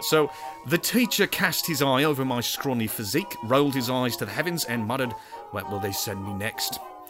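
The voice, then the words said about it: Put-on hobbit-style New Zealand accent. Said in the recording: “It's going cockney ... In the best accent I know how to do, which is a hobbit accent ... That is how all New Zealanders sound.”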